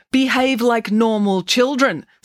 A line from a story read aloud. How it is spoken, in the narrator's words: snapped Professor Maynard